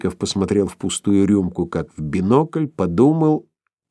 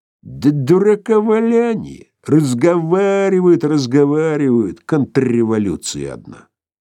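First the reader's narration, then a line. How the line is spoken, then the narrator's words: Loud laughter. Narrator (Russian): Филипп Филиппович захохотал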